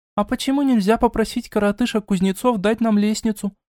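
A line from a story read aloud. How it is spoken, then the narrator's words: Timid question. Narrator (Russian): Робко поинтересовалась лисенок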